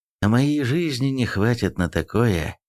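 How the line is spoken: Sighing. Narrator (Russian): вздохнул Эрих

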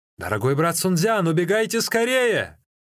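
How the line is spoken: Shout. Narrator (Russian): Ли Цзюнь крикнул

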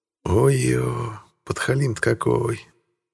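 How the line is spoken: Inward groan. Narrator (Russian): Простонала про себя Инга

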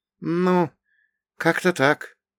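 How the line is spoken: Vague, uncertain. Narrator (Russian): прозвучало неопределенно и неуверенно

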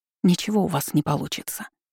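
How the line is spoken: Whisper. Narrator (Russian): прошептала я

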